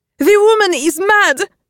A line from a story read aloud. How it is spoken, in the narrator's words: sobs her mother